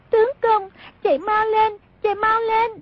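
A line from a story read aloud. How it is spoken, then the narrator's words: Panicked crying cry. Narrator (Vietnamese): Song Nhi cuốn quá bật khóc, kêu lên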